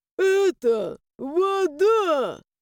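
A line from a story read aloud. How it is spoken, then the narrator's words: Tragic ghostly moan. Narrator (Russian): Трагично простонал призрак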